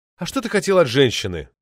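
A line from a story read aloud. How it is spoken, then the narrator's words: Sympathetic sigh. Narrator (Russian): С оттенком сочувствия вздохнул он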